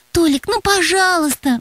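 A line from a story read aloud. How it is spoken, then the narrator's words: Pleading. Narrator (Russian): взмолилась Настя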